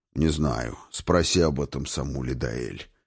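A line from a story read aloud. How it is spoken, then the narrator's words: Old man's grumble. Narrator (Russian): проворчал старый Хрофт, отводя глаза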